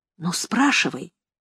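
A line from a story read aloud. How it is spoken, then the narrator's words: Whisper. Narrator (Russian): сказала я шепотом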